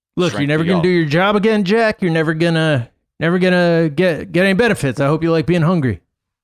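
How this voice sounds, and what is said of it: Joe Biden impression. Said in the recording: “my Joe Biden impression”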